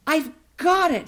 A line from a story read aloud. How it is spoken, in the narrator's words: exclaimed